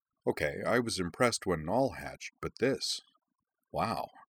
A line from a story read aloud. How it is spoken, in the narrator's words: she murmured to him behind a confidential hand